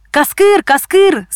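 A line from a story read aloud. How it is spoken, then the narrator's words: Shouting from afar. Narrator (Russian): закричал издали Лёня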